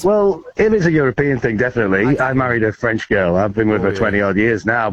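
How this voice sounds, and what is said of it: Merseyside English accent. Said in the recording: “What accent's that ... Scottish. No, I'm not Scottish. No, I'm from Merseyside in England.”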